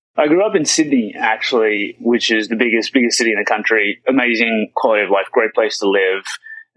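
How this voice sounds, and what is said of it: Faint Australian accent. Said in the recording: “I'm trying to hang on to the remnants of the accent ... it makes for a great audio recording”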